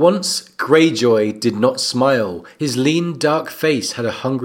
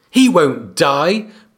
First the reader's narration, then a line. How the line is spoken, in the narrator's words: Bran screamed at him